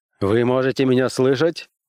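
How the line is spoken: Exclaimed. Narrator (Russian): воскликнул Уэнтворд

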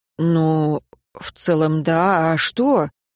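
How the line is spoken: Annoyed sigh. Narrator (Russian): Я вздохнула, злясь на него

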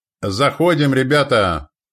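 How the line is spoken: Shout. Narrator (Russian): крикнул Ворон

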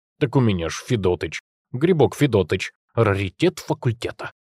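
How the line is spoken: Snorting. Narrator (Russian): фыркнул Димка

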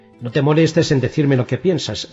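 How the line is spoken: Curt, sharp tone. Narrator (Spanish): le dijo Philip con tono tajante

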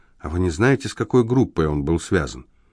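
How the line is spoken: Whispered. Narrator (Russian): прошептала

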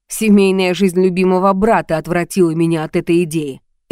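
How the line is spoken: Sarcastic. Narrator (Russian): язвительно сказал он

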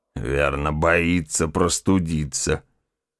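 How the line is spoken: Mocking mutter. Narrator (Russian): насмешливо пробормотал

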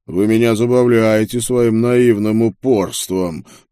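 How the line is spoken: Monstrous growl. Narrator (Russian): прорычала тварь из ада

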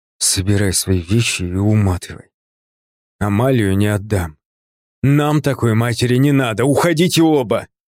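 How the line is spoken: Said through gritted teeth. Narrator (Russian): процедил он

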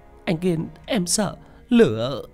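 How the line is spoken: Sobbing girl. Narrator (Vietnamese): Linh ... khóc nức nở

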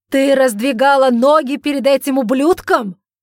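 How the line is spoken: Outraged, shocked shout. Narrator (Russian): закричал Эджмонт вне себя от негодования и шока

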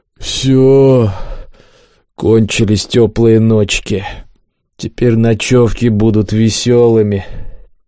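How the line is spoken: Gloomy mutter. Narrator (Russian): Кабан уныло буркнул

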